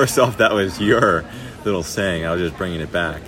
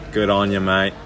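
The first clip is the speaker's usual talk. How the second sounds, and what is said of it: Put-on Australian accent. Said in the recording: “the good on you Australian accent”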